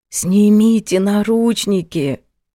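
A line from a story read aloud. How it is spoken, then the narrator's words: Wheezing. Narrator (Russian): просипела Фатима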